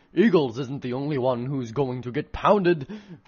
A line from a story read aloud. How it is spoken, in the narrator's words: Bonanno growled